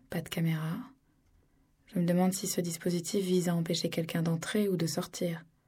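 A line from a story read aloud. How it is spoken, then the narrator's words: Whispered. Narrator (French): murmura Didi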